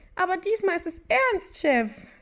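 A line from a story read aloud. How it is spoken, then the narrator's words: Squeaky voice. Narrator (German): ertönte eine zweite piepsige Stimme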